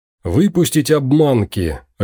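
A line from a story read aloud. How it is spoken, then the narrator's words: Bark. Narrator (Russian): рявкнул Виктор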